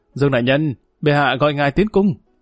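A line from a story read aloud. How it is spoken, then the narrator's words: Loud call. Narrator (Vietnamese): tên tiểu thái giám đi đến trước người y cao giọng hô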